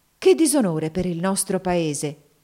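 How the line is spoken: Woman exclaiming. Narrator (Italian): esclamò una terza interlocutrice

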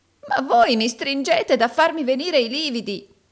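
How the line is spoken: Exclamation. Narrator (Italian): esclamò Gride

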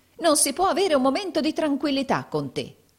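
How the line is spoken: Woman exclaiming. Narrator (Italian): esclamò la donna

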